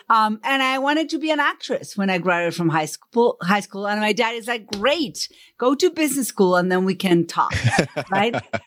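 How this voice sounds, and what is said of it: Argentine Spanish accent in English. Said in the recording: “where's your accent from? It's from Buenos Aires. Spanish is my first language.”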